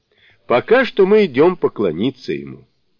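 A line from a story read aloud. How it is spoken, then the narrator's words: Exclaim. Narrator (Russian): воскликнул Сунь-Укун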